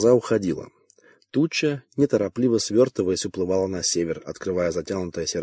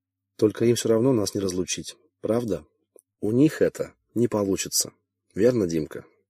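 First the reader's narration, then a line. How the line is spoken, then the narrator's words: Quiet. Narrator (Russian): сказала она тихо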